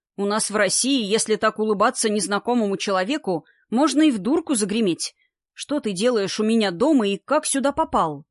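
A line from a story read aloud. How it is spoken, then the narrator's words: Plain. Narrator (Russian): наконец спросил Гера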